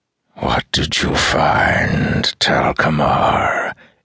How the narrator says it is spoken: It hissed mockingly

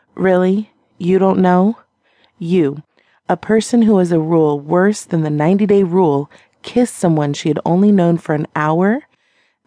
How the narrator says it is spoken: she laughed

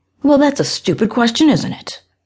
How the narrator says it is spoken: She snapped

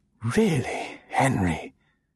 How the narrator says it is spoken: she breathed archly

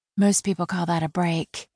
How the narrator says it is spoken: Carol said softly

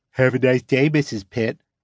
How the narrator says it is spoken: Patty repeats in a nerdy voice

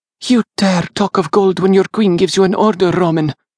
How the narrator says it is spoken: Arsinoe snapped, her angry, pouty expression had returned

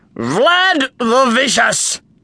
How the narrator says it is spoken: shouted Maxi

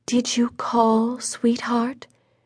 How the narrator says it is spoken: Making her voice as gentle as a dove coo, she said

